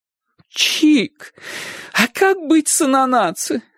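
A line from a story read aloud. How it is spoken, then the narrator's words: Pleading. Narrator (Russian): взмолилась тетушка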